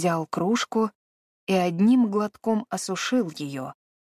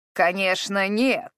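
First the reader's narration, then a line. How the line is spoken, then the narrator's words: Angry interruption. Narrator (Russian): сердито вмешался Бэрон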